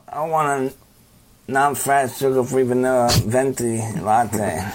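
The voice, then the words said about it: Imitates another person's voice. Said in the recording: “does an impression of Nate Diaz”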